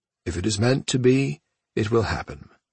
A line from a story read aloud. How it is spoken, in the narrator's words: Cha said solemnly